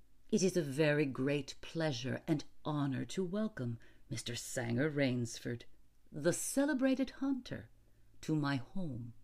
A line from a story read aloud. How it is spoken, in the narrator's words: In a cultivated voice, marked by a slight accent that gave it added precision and deliberateness, said